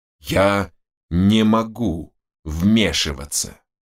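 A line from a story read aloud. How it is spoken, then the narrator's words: Near growl. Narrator (Russian): почти прорычал он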